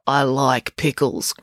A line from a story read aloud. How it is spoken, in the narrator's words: growled the chef